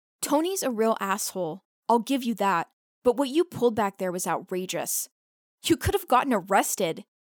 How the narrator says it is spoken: Rio explains, her voice distraught

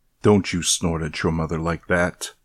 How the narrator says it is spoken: said my father, gruffly with authority

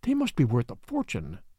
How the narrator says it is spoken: the secretary murmured

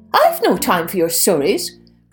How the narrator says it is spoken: cried her sister Tess

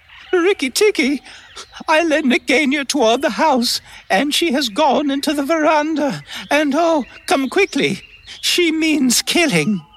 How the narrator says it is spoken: Darzee's wife screaming

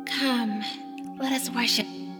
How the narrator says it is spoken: whispered the witch

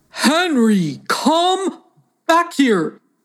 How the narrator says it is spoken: bellowed the man again

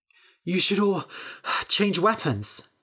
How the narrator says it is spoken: Bethany said, panting

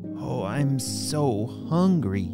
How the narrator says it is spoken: Riley exclaimed as her tummy continued to growl

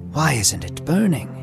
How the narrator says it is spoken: he whispered to himself

